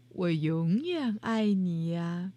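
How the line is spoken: Mother, smiling. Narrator (Chinese): 妈妈笑着说

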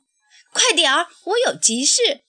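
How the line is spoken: Loud, urgent. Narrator (Chinese): 她喷着蒸汽，吹着汽笛，大声说

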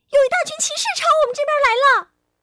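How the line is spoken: Loud shout. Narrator (Chinese): 小火花 大叫起来

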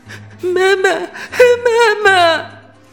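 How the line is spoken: Frightened, sobbing loudly. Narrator (Chinese): 小星星吓得大哭起来

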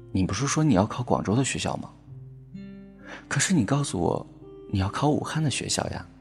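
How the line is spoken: Soft sigh. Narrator (Chinese): 他轻轻的叹了口气说

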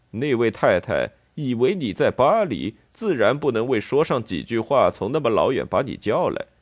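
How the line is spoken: Mocking tone. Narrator (Chinese): 墨工用一种嘲笑的声调说道

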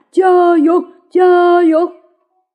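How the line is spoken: Thunderous booming voice. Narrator (Chinese): 大胡子的声音惊天动地

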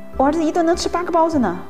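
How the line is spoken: Man shouting. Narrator (Chinese): 有一个男家长大喊

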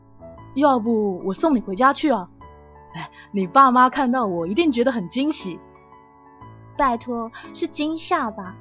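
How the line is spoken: Exasperated yet amused. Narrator (Chinese): 幸福又好气又好笑

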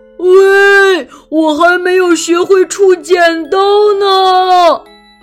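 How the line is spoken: Loud shout. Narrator (Chinese): 大猩猩大声地喊

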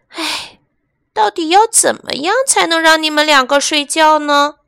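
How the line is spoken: Sighing. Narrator (Chinese): 黛拉叹了一口气

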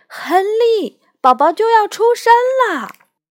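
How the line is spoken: Shout. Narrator (Chinese): 艾达的喊声

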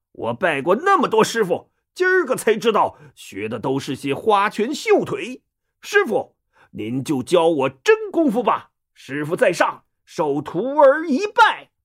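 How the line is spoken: Young man speaking loudly. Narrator (Chinese): 那小伙子咕噜一下爬起来，又扑通跪倒在地，大声说

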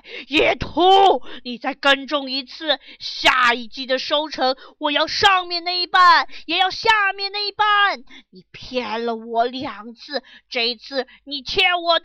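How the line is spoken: Angry roar. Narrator (Chinese): 大熊怒吼起来

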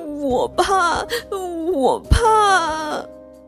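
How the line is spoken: Crying little bear. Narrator (Chinese): 小熊把头扎在熊妈妈的怀里哭，一边哭一边说

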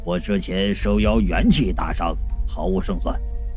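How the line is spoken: Low voice. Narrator (Chinese): 黑胡子老道低声说道

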